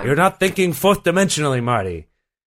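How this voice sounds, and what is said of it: Imitates another person's voice. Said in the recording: “my Christopher Lloyd impression ... That was an impression. ... your terrible Christopher Lloyd impression”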